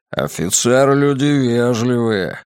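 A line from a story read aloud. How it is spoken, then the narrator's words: Grumbling. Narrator (Russian): пробурчал Григориус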